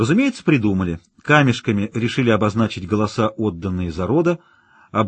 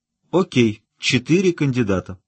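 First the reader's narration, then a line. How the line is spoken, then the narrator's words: Sigh. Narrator (Russian): вздохнул Килрой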